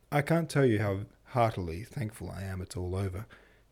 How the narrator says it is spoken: he sighed

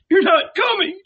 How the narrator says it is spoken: cried

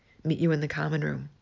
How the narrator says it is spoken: Harry muttered

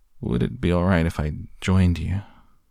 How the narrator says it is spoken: he asked in his silken, irresistible voice

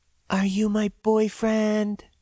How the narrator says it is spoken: She whispered into my ear, somehow spitting when she did it

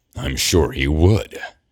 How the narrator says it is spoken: Gabriel snarls

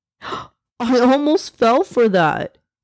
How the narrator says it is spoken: exclaimed, laughing

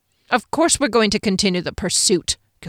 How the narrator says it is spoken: Gilvray snapped

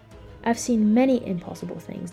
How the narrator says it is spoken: the man said

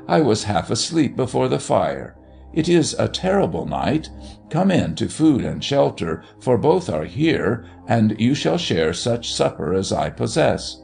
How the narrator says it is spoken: exclaimed in German

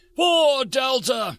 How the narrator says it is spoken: the head of the assault cried

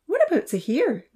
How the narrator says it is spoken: Lily piped up

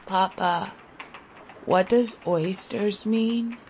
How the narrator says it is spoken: I asked in a husky voice

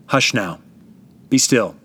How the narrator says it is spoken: said to the waves, speaking in a calm, quiet tone of voice

